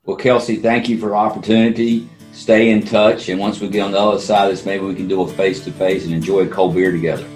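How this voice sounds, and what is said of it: Slight Southern American accent. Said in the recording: “great accent ... great kind of southern accent, a little bit”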